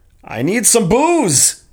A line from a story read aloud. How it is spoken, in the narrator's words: shouted